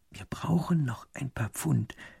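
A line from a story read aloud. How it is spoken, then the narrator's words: Whispering. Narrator (German): flüstert der zweite Minister dem ersten zu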